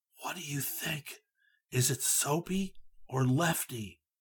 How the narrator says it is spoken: In a barely audible whisper, he asked

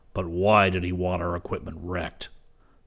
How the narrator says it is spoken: Professor Zircon barked

